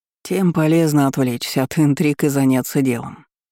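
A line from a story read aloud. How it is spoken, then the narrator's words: Calm remark. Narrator (Russian): спокойно заметил Наран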